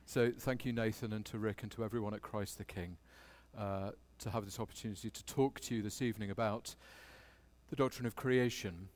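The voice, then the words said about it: Posh English accent. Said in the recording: “this rather posh English accent”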